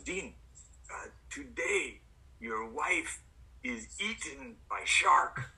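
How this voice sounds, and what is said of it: Put-on thick Bulgarian accent. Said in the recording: “he's got this like thick Bulgarian accent”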